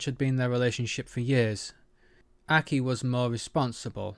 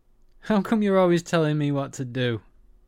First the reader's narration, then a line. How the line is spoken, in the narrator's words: Kiva laughed